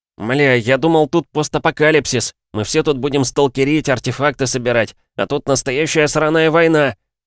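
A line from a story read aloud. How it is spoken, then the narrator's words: Shouted. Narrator (Russian): выкрикнул он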